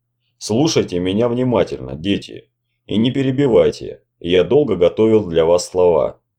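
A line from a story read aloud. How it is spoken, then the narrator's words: Plain. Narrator (Russian): сказал умник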